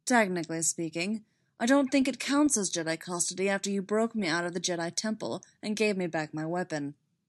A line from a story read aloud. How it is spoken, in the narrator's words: Kenobi said dryly